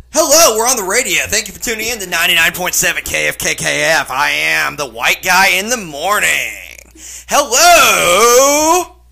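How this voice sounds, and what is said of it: Exaggerated radio DJ voice. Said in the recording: “Do your best radio voice.”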